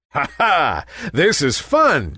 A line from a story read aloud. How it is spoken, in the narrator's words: chuckled Nimbus